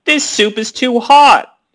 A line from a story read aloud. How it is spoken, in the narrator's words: she yelled